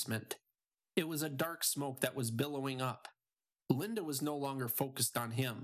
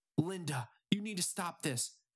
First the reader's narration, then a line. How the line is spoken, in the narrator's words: Mitch pleaded